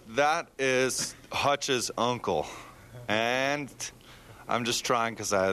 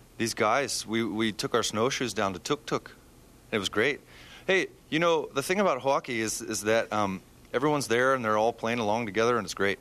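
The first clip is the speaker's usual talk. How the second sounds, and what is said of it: Put-on Canadian accent. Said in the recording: “Can I do my Canadian accent? ... Very good.”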